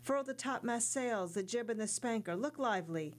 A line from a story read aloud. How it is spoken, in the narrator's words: the young sailor cried